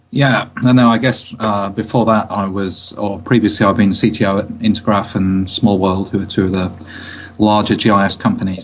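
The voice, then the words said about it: British English accent. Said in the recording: “you sound very British.”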